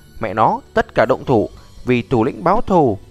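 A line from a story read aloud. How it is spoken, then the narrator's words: Angry yell. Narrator (Vietnamese): Tên béo ngốc trệ trong giây lát, rốt cuộc phục hồi tinh thần, giận dữ hét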